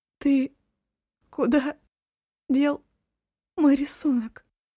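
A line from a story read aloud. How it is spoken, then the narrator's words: Sobbing question. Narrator (Russian): всхлипывая, спросила Эва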